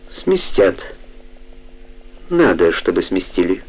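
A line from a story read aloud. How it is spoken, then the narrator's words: Calm reply. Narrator (Russian): спокойно ответил Мюллер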